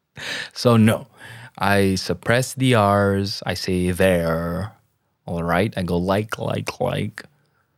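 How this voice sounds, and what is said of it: Slightly American accent, unrolled R's. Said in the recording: “I kind of suppress the R's, you know, the R's. I don't roll the R's ... Slightly American accent here”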